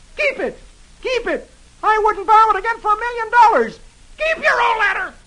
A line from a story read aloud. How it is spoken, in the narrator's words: Brump and hollers